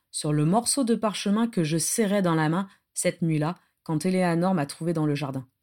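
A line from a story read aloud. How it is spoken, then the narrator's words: Blank, toneless voice. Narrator (French): dit Adam d'une voix blanche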